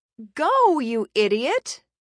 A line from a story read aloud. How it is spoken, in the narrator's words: Layla shrieked into her ear